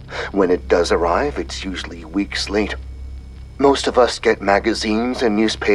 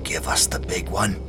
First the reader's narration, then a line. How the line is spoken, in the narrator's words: he whispered almost to himself